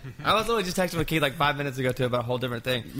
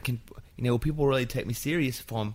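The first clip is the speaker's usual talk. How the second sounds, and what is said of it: Put-on Australian accent. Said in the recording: “Was that your Australian accent? ... It's my Keith accent”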